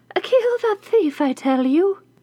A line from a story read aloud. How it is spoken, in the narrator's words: the witch … called out